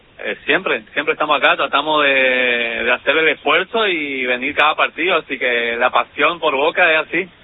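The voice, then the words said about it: Regional accent, not Rioplatense Spanish. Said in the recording (Spanish): “te noto alguna tonada, algo ajena a la rioplatense”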